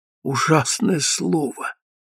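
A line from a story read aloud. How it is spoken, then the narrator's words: Whispered. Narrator (Russian): зашептала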